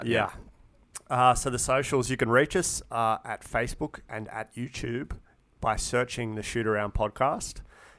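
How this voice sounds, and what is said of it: Hoarse, failing voice. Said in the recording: “I am losing my voice”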